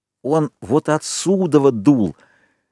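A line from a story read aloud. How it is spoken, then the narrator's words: Exhaling with whole chest. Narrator (Russian): Ральф наконец-то понял и выдохнул всей грудью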